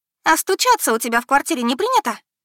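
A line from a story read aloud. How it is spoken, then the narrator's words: Cheerful retort. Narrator (Russian): Весело отбивает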